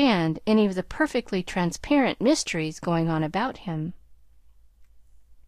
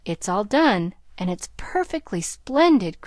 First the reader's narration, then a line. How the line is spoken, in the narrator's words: cried Nan, with the air of triumph